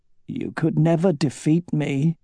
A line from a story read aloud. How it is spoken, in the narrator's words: she mumbled, her voice thick with emotion